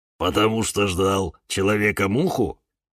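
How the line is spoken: Snorting. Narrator (Russian): хмыкнул папоротник Демьян

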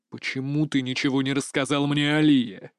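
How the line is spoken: Through gritted teeth. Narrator (Russian): Цежу сквозь зубы

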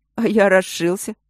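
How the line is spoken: Chuckling again. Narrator (Russian): снова хохотнул он

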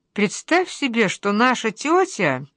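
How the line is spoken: Thoughtful, slightly muffled. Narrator (Russian): говорит задумчиво мама с неразвернутой соломинкой во рту

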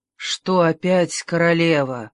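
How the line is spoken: Weary sigh. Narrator (Russian): устало вздохнула миледи

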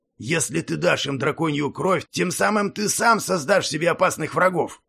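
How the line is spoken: Dragon's roar. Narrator (Russian): взревел дракон

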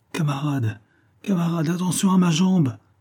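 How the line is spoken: Pleading. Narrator (French): suppliait-il

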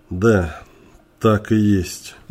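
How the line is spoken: Sighing agreement. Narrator (Russian): вздохнув, согласился Джерри

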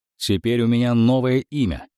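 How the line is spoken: Loud. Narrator (Russian): сказал я громко

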